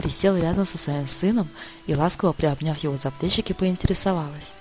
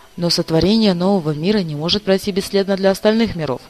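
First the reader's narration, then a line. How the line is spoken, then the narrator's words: Angry husband. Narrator (Russian): сердито отвечал супруг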